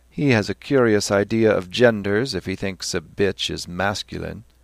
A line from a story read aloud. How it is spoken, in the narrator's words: Stephen laughed and said